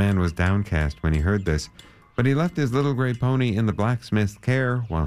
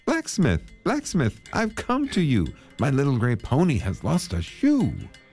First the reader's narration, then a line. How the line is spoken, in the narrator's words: he called out to him